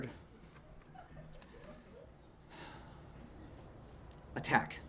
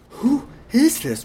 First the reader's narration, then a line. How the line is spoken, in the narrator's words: Rowan said in between gasps